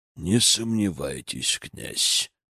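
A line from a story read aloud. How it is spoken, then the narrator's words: Through gritted teeth. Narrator (Russian): процедил Изаму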